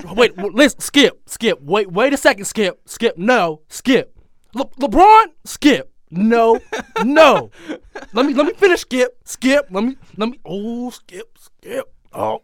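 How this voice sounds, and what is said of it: Shannon Sharpe impression. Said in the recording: “Shannon Sharp impression”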